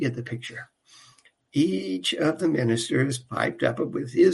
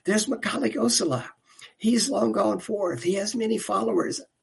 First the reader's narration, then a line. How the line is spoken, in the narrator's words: Another minister piped up